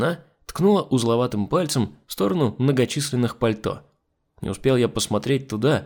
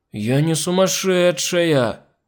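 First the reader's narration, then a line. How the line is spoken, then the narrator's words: Hurt, drawn-out whine. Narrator (Russian): обиженно протянула Нюша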